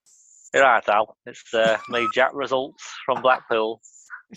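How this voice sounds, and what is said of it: Put-on Northern English accent. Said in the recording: “I can't do a Blackpool impression... Is that Sean Bean?... All my Northern's the same”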